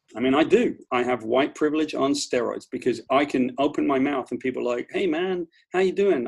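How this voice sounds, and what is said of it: British accent. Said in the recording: “somebody with a British accent ... just because of my accent”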